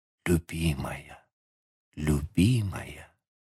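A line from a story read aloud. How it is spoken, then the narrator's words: Dazed repeated whisper. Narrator (Russian): близкий к беспамятству, повторяя шепотом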